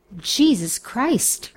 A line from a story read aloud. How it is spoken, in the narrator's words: husband exclaimed